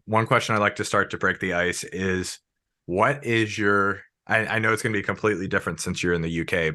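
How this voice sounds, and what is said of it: Rough, rugged sick-sounding voice. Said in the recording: “I'm like sick, but if you can tell by my voice, it's actually like got some ruggedness to it than it usually does”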